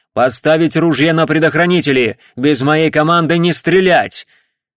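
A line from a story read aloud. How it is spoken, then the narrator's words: Loud command. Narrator (Russian): Палидор громко приказал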